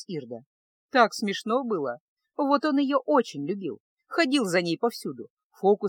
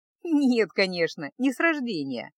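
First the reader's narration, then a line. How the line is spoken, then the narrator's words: Laughing. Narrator (Russian): засмеялась Ирда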